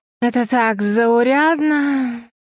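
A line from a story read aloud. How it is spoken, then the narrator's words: Drawling. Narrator (Russian): протянула мисс Кук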